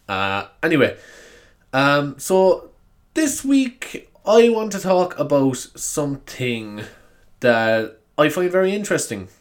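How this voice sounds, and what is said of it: Sniffly, slightly raw-throated voice. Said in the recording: “as you can tell by my voice, I'm not feeling the best... I'm feeling a little bit of a snivel, and my throat is a bit, is just a bit raw”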